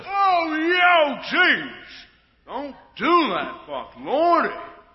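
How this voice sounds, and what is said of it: Shouting. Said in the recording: “Stop shouting.”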